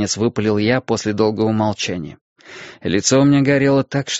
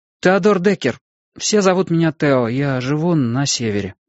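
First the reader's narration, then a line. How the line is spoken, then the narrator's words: Uncertain addition. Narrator (Russian): неуверенно прибавил я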